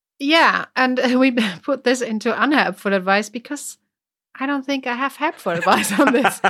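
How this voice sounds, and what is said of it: British accent. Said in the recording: “you have such an amazing British accent”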